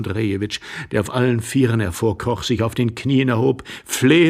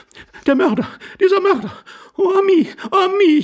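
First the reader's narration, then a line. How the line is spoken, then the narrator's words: Lady wailing. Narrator (German): jammerte die Dame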